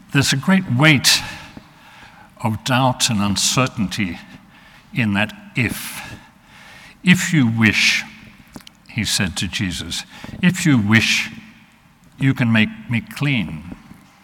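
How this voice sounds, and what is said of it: Australian accent. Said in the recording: “my Australian accent ... confuses people about what I'm saying”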